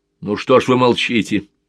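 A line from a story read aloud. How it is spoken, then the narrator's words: Irritated, pained question. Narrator (Russian): Не то раздраженно, не то с какой-то болью спросил главный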